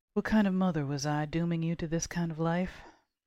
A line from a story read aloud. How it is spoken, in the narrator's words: She sighed